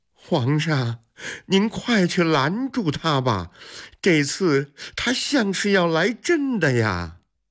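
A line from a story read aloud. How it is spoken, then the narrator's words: Breathless urging. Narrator (Chinese): 王德喘着气催促说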